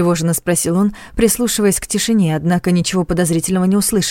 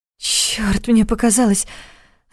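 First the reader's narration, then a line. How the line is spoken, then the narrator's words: Relieved exhale. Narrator (Russian): Облегченно выдохнула Саша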